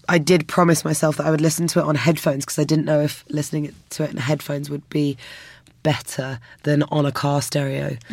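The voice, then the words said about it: Strained, worn-out voice. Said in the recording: “my voice is absolutely on its last legs ... even though my voice is on its last legs, it hasn't failed me quite yet”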